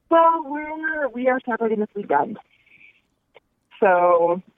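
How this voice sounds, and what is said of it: Emotional, tearful voice. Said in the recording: “it's a little emotional. ... Are you crying?”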